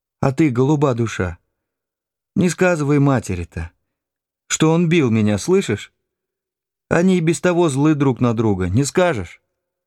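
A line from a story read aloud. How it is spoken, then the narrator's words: Gentle pleading. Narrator (Russian): стала просить меня ласково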